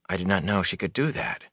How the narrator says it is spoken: Rand said softly to Lann, his cheeks hot

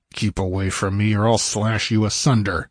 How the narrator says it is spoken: he growled, his flesh crawling with revulsion

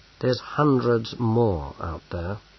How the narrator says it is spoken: said Bane gloomily

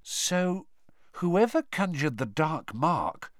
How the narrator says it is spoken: said Hermione, slowly

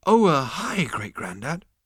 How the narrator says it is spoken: he breathed

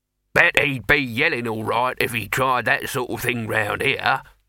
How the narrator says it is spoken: said Throat cheerfully

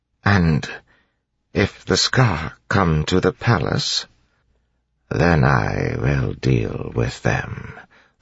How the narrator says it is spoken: the Lord Ruler said softly

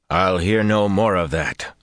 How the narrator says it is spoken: growled

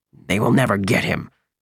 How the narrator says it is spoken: said through gritted teeth

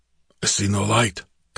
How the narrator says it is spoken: Conan muttered

